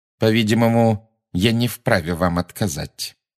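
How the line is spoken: Through clenched teeth. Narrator (Russian): процедила МакГонагал сквозь крепко сжатые зубы

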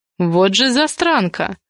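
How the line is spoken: Muttered. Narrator (Russian): пробормотал Дамиан

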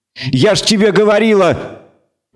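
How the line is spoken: Shout. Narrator (Russian): крикнула Лебуше

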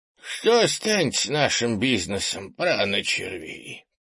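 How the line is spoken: Creaky old elder voice. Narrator (Russian): проскрипел второй старейшина

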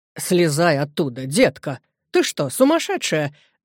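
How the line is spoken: Exclaimed. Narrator (Russian): воскликнула она

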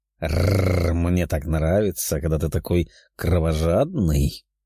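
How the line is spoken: Growled. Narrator (Russian): прорычала Даша

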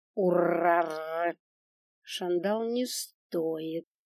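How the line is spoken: Plain. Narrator (Russian): сказал мессир

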